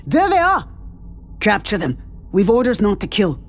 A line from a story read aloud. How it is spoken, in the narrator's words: A Ganda soldier shouted